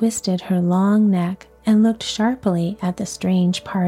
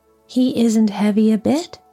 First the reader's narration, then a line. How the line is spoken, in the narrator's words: said Dorothy eagerly